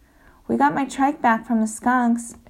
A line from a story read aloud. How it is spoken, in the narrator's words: shouted Mila